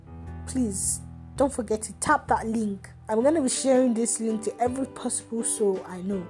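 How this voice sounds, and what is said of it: Igbo Nigerian English accent. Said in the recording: “I'm an Igbo girl, that accent. If it may come out once in a while.”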